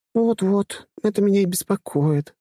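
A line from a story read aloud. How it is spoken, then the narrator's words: Sighing. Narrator (Russian): вздохнула она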